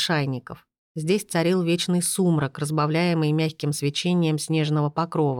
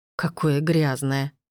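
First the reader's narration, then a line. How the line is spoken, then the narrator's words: Snorting. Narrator (Russian): фыркнула Шарлотт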